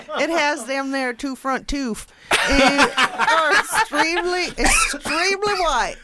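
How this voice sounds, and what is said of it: Wandering put-on British accent. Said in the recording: “a Taiwanese British accent... She's gone through every accent from A through to B.”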